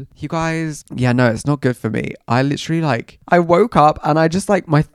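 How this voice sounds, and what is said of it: Congested, croaky voice. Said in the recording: “I have a bad cold right now... I don't know if you can hear. I sound like bunged up... My voice is like croaky.”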